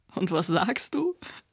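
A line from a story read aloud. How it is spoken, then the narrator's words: Laughing. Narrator (German): lachte Nota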